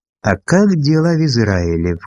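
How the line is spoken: Insinuating inquiry. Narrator (Russian): вкрадчиво поинтересовался он

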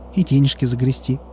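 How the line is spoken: Sudden cheerful interjection. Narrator (Russian): вдруг весело вставил Алиск

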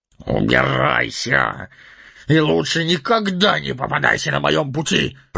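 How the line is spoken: Through gritted teeth. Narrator (Russian): процедил сквозь зубы Торин

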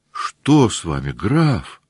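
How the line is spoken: Surprised, sympathetic. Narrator (Russian): спросила удивленным и соболезнующим голосом графиня

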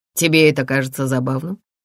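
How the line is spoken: Dry question. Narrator (Russian): сухо спросил Джеймс

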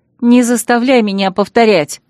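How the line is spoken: Growled reply. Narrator (Russian): рыкнула в ответ

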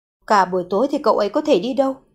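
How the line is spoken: Muttering. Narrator (Vietnamese): Thượng Kha nhịn không được lẩm bẩm

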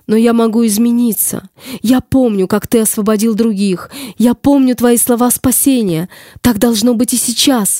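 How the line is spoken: Shout. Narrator (Russian): закричала

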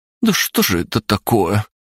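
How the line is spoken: Bewildered speech. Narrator (Russian): растерянно проговорила Арина

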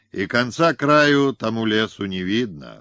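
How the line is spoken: Sighing. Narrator (Russian): он вздохнул

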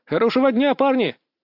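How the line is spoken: Shouted after. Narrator (Russian): крикнул я вслед

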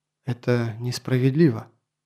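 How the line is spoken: Quiet. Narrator (Russian): Толла тихо произнесла

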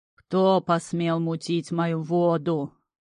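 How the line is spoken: Rolling booming bass. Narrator (Russian): раскатисто пробасило

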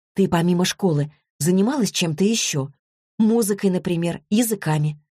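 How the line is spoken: Gentle, affectionate. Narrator (Russian): ласково обратилась к ней Злата

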